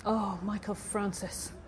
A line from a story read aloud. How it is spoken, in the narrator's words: whispered